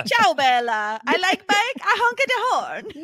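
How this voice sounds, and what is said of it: Put-on Italian accent. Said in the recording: “Why does it give him an Italian accent? ... accents are fucking fun”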